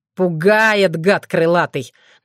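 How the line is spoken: Mocking snort. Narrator (Russian): насмешливо фыркнул Уртян, стремительно пришедший в себя

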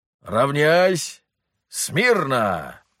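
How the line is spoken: Barked command. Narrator (Russian): гаркнул Строганов

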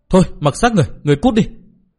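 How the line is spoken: Angry scolding. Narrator (Vietnamese): Tô Tố bực bội hậm hực quát mắng

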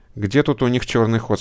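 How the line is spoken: Plain. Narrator (Russian): спросил Андрей

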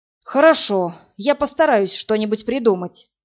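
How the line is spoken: Heavy sigh. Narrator (Russian): тяжело вздохнул мэр

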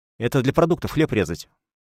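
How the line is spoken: Hurried. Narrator (Russian): торопливо сказал я

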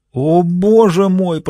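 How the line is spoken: Moaning. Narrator (Russian): простонала

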